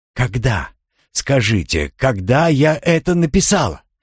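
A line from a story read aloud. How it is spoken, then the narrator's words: Exclamation. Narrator (Russian): воскликнула Манон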